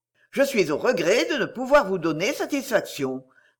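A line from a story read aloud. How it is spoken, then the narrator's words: Jovial. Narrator (French): reprit d'un ton jovial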